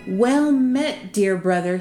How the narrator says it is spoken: he cried

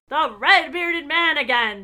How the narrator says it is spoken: Bess cried out

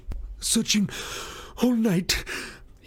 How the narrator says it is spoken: gasped

